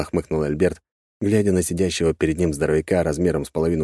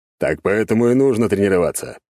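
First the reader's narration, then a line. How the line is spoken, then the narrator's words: Snorting. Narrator (Russian): хмыкнул Альберт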